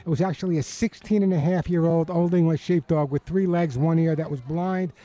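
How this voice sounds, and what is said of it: Long Island accent. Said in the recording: “Long Island, I still have my accent”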